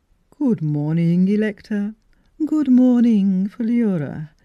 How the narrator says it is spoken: intoned a majestic voice

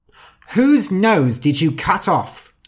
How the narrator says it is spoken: shouted his wife

